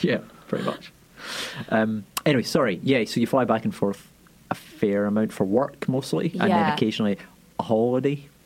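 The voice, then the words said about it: Speaker's own distinctive accent. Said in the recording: “in my accent because it sounds funny ... a lot of names that I can't say ... in my accent it just sounds like Will”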